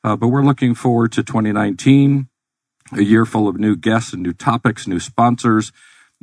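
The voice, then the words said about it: Scratchy voice. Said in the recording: “Bit under the weather today, so if my voice is a little scratchy”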